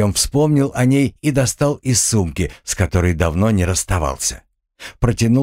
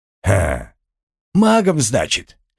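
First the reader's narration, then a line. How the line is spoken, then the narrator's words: Pause, snort, then speaking. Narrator (Russian): Помолчав и хмыкнув, проговорил он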